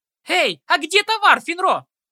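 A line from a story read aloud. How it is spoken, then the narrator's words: Yelling. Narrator (Russian): Заорала Ситси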